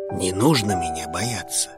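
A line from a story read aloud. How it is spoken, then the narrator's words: Whispered. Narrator (Russian): прошептал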